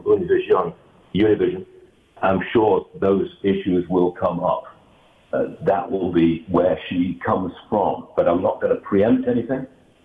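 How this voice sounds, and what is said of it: Very foreign accent. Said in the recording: “a man with a very foreign accent ... I've got a foreign voice”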